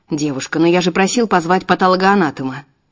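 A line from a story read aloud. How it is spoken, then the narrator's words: Irritated curt remark. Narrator (Russian): Некоторые раздраженно бросают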